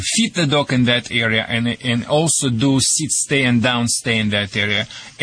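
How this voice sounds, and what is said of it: Slight foreign accent. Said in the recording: “My accent is worse than yours... Yours is just very slight.”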